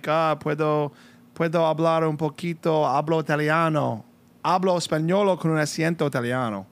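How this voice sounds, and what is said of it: Spanish with Italian accent. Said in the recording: “I speak Spanish with an Italian accent.”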